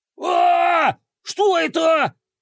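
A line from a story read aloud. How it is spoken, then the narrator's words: Frantic scream. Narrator (Russian): истошно заорал тот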